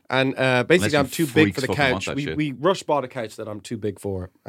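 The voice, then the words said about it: Sick-sounding voice. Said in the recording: “I'm sick. I was been sick all week. You can probably hear it in my voice.”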